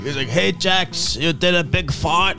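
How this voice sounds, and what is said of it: Imitates another person's voice. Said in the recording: “does an impression of my dad”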